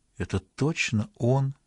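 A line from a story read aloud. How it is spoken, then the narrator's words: Quiet. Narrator (Russian): негромко произнесла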